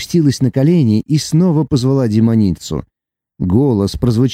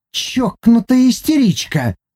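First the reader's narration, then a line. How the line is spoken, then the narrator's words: Hissing and spitting. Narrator (Russian): шипела и плевалась Наама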